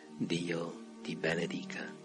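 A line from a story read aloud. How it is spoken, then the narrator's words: Low, deeply expressive voice. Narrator (Italian): Con un tono basso, con tutta l'espressione che poteva dare alle sue parole, disse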